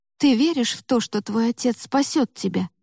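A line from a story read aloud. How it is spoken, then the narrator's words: Hopeful whispered question. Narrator (Russian): шепотом спросила Ева, потому что ей вдруг стало очень важно тоже в это поверить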